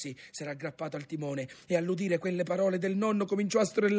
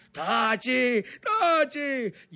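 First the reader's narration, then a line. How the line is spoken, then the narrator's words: Shout through clenched teeth. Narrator (Italian): gli gridò il fratello col coltello fra i denti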